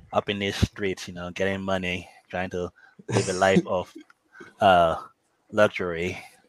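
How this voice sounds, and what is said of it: Nigerian accent. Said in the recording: “Your favorite tall Nigerian ... I'm losing my accent.”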